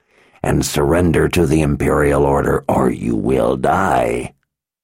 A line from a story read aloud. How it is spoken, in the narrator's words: the man growled